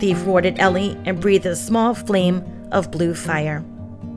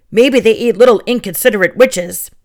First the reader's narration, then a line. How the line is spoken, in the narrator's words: he grumbled